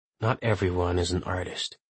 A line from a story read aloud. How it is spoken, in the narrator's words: he says under his breath